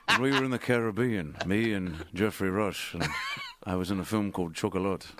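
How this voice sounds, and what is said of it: Jack Sparrow impression. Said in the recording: “I don't know why he sounds like Jack Sparrow from Pirates of the Caribbean ... I speak like I have an accent”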